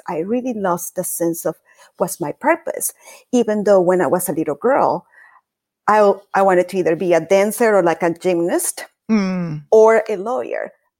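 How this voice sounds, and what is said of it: Latin American accented English. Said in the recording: “being an immigrant and having an accent ... it's obvious I'm a Latin girl, so it's with an accent”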